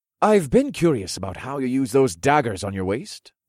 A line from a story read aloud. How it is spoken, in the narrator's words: the lieutenant informed in an eager tone